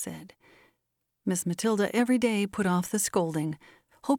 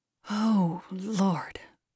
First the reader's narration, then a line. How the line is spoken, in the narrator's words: groaned Miss Matilda to herself